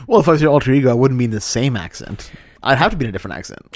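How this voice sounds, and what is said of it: Put-on different accent. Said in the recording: “you did a weird accent again ... You did an accent ... why are you in a different accent?”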